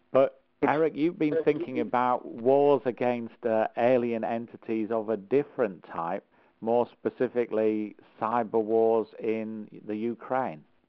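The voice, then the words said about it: Slightly unwell, under-par voice. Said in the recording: “my man flu, so my voice isn't as great as it normally is”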